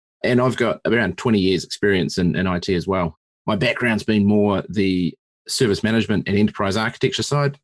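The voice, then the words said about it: New Zealand accent. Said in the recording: “as most of your listeners will probably pick up from your accent, I'm not from America. I'm a New Zealander. I'm a Kiwi.”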